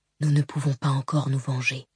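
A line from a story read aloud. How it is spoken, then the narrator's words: Whisper. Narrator (French): chuchota Elaran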